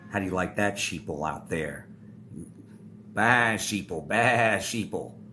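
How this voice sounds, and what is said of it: Annoying put-on character voice. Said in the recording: “that annoying voice”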